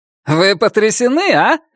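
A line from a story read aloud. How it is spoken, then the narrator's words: Joyful question. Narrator (Russian): радостно спросил Джон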